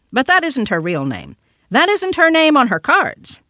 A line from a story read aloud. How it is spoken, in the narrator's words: cried the child